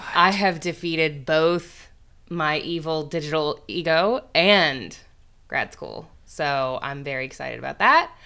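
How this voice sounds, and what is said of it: Sick-sounding, worn-out voice. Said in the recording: “You can probably hear in my voice that it was not without significant sacrifices, such as my entire immune system.”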